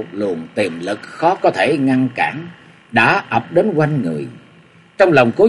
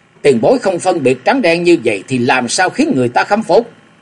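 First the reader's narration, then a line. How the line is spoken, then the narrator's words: Shout. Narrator (Vietnamese): Trong tiếng quát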